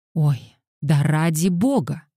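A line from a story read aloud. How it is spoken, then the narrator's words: Exclaimed. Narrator (Russian): воскликнула Ида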